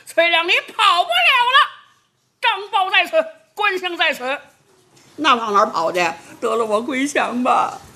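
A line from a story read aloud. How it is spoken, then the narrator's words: Two people shouting loudly. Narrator (Chinese): 后边两个人高声喊嚷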